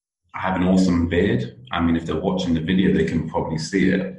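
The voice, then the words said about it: British accent. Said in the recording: “you can definitely tell I'm British with my accent.”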